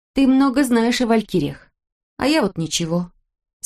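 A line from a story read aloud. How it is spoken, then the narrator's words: Sad. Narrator (Russian): сказала Ирка печально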